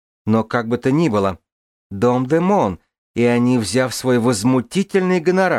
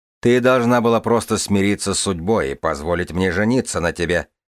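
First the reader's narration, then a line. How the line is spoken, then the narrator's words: Snorting smirk. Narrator (Russian): хмыкнул сэр Арет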